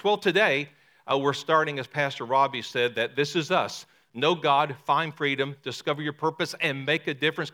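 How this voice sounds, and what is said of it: Distinct downriver regional accent, brogue. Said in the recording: “you can tell by my accent that I'm from downriver ... The accent's very unique ... way downriver, like in the Arkansas River and the Mississippi River ... I know you can hear that brogue”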